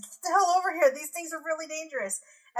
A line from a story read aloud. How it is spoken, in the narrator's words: They're starting to panic a little bit now, and they're yelling at their comrades